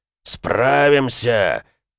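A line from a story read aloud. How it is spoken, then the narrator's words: Growl. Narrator (Russian): прорычал Эмик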